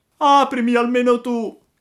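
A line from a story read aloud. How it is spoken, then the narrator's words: Crying, pleading shout. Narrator (Italian): gridò Pinocchio piangendo e raccomandandosi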